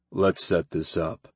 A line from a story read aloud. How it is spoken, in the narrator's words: Grimm murmured